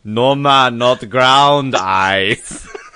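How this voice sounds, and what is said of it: Put-on Jamaican accent. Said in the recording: “now you need that Jamaican accent.”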